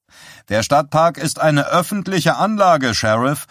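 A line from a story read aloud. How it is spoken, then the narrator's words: Reporter calling out. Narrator (German): rief einer der Reporter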